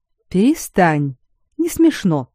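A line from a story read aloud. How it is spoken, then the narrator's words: Stern. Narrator (Russian): строго сказала Хелен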